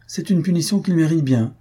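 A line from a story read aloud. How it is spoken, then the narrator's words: Cheerful reply. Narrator (French): répondit gaiement Faustine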